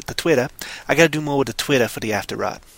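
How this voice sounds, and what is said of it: Unidentified put-on comic accent. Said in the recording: “I don't know what accent it is, but I'm going to keep going with it ... I'm going to keep going with this accent.”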